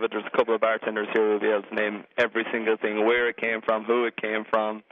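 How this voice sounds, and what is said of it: Irish accent. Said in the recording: “I detect a bit of an accent there ... I'm from Ireland.”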